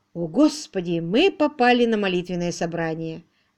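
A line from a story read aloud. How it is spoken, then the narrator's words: Exclamation. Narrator (Russian): воскликнул Уимзи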